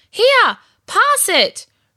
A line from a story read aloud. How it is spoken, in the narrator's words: Ruby shouted from midfield